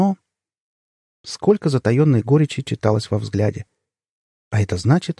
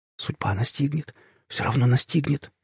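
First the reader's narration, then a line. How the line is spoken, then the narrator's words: Whisper. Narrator (Russian): шептал он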